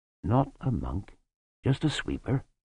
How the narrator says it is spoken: said Lutzer calmly

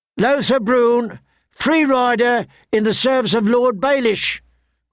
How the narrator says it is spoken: cried the herald

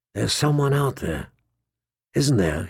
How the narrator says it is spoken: he whispered

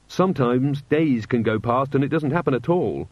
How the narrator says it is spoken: Angua snapped

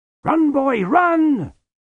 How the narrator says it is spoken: shouted Lutzer

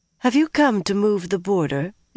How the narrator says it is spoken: Elaine asked suddenly and coolly

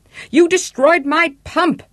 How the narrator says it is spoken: the attendant yelled, totally out of breath and totally beside himself

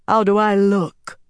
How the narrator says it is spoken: Elaine said, tweaking her weaves to make her voice deeper

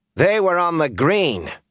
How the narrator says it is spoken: she announced loudly

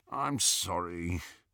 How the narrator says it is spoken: Ron said, moaning a little

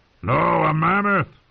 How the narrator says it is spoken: Tormund bellowed

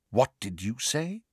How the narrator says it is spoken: Snape asked quietly, Snape was unnerved

